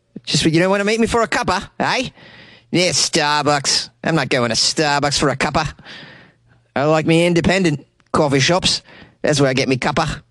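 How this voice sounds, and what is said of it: Attempted Australian accent. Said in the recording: “I don't know if this is a good Australian accent, but I'm giving it the old college try”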